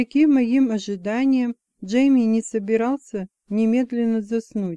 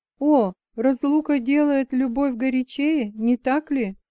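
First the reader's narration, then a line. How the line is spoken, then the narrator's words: Exclaiming. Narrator (Russian): воскликнула я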